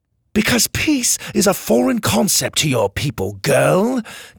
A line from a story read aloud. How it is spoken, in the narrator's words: Kai spat